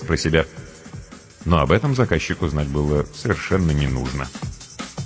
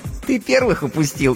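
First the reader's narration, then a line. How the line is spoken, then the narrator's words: Giggling. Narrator (Russian): хихикнула она в ответ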